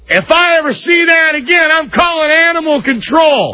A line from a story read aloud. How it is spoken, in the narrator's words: the guy yell out again